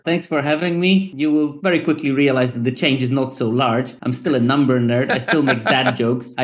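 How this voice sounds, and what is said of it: Eastern European accent. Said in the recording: “I just have a more Eastern European accent.”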